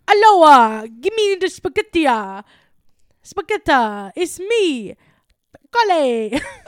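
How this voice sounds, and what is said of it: Bad put-on Italian Mario accent. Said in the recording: “That was the worst Mario accent I've ever heard in my life ... Is that like off, knockoff Mario?”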